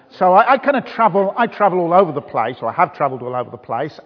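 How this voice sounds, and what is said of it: Birmingham (Brummie) accent. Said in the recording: “I'm actually not from this part of the country. You recognise my accent? ... I come from the beautiful city of Birmingham ... the Birmingham accent”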